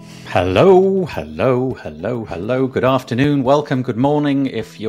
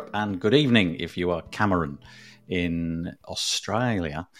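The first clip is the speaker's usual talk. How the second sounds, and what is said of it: Poor put-on Australian accent. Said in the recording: “I just tried to do an Australian accent. It was really bad.”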